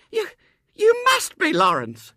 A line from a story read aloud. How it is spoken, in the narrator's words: she cried distractedly